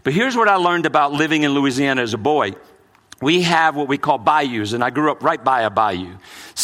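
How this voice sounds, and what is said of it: Mixed New Orleans and Brooklyn accent. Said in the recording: “I'm mixed ... you might catch more of my New Orleans accent, but it's also a Brooklyn accent.”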